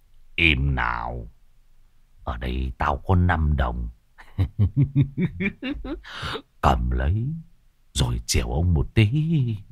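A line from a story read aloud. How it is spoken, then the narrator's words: Harsh stern voice. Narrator (Vietnamese): ông gằn giọng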